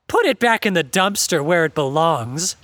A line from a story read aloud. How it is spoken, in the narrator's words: he groaned dramatically